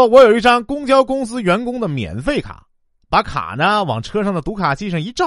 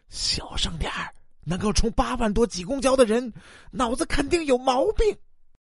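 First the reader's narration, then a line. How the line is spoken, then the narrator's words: Whisper. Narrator (Chinese): 附在耳边轻声的说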